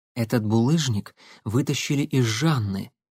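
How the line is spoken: Low voice. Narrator (Russian): вполголоса сообщила Татьяна

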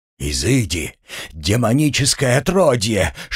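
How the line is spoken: Snake-like hiss. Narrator (Russian): шипел, словно потревоженная змея, инквизитор

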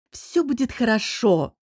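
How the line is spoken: Thoughtful promise. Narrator (Russian): задумчиво пообещал

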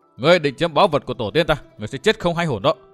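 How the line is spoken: Harsh, menacing voice. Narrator (Vietnamese): Ngân Nhi gằn giọng hỏi

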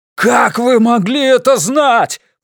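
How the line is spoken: Roared. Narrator (Russian): проревел он

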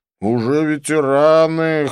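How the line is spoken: Wry snort. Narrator (Russian): хмыкнул Клифф

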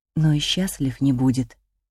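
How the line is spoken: Inner voice whisper. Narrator (Russian): шепнул внутренний голос

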